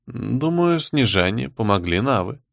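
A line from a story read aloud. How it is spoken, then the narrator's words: Calm. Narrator (Russian): спокойно сообщила Всеведа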